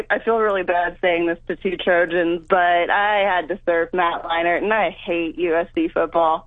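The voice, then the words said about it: Sultry, attractive female voice. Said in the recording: “she's got a sexy voice”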